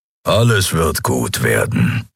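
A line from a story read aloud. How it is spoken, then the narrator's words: Grumbling. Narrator (German): brummte Keru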